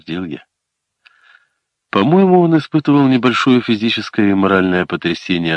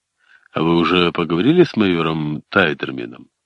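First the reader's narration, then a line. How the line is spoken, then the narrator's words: Plain. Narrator (Russian): спросил я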